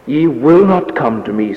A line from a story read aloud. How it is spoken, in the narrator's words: said Jesus